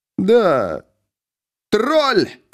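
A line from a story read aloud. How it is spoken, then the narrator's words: Shout. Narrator (Russian): крикнул Ангмар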